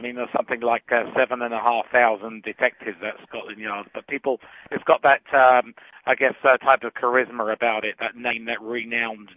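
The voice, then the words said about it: British accent. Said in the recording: “people like your accent, it makes you stand out a little bit more in Canada? ... my accent does help me sell my services”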